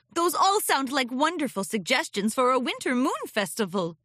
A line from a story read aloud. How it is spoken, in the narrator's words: Princess Celestia chuckled